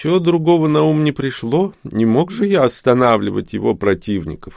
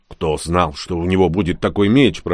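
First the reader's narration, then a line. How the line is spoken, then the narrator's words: Grumbling. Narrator (Russian): проворчал Рон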